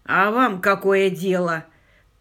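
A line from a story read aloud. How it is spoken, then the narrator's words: Furious growl. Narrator (Russian): прорычал фермер, поворачиваясь к Питеру с такой яростью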